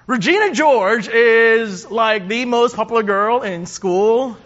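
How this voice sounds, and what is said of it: Valley girl accent. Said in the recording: “That's my Best Valley girl accent, I'm sorry.”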